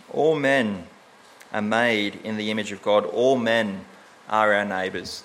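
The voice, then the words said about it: Australian accent. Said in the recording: “the Australian accent doesn't do justice to”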